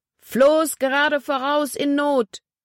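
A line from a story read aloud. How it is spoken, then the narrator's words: Shouting into speaking tube. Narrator (German): schrie ins Sprechrohr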